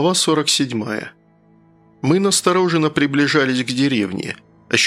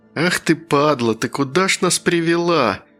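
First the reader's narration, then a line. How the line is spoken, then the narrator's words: Through teeth, fake smile. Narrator (Russian): С такой же фальшивой улыбкой произнес я сквозь зубы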